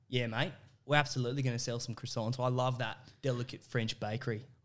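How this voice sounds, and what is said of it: Strong put-on Australian accent. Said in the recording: “Strong Aussie.”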